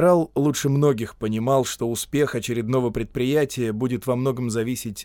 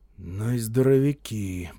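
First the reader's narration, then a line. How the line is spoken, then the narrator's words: Muttered. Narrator (Russian): пробормотал сержант Элай Локхарт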